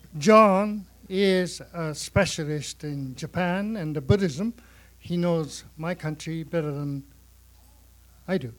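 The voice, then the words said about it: Japanese accent. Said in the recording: “Sorry about my Japanese accent.”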